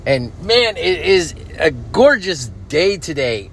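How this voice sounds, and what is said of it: Excited, energetic voice. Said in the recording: “I'm sure you could hear it in my voice. I'm like stupid excited right now”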